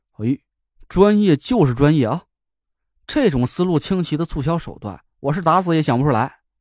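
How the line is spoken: Amazed exclamation. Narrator (Chinese): 我惊叹了一声

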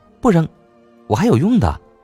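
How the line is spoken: Calling out. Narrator (Chinese): 默默 叫

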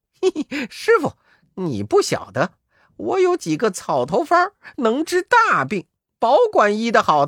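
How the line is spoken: Laughing. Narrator (Chinese): 悟空却笑道

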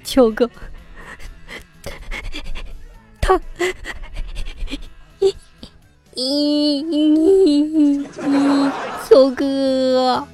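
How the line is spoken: Crying. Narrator (Chinese): 朵朵哭

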